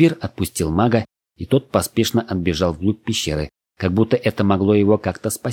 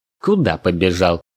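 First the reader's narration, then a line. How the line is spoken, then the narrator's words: Mocking. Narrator (Russian): насмешливо спросил Кельмир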